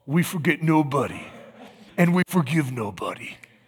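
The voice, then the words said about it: Put-on Sicilian gangster accent. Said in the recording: “if I had the cool Sicilian accent ... Now, that wasn't bad. That was pretty good”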